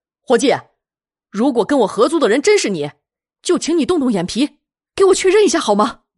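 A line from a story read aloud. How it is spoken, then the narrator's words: Loud, resolute. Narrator (Chinese): 魏瑶考虑再三，他咬咬牙，对着那人大声说道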